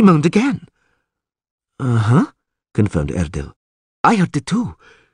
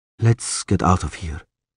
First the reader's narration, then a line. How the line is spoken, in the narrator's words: he said quietly